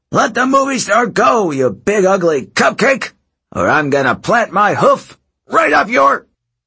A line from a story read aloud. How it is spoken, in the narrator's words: Coach Hedge shouted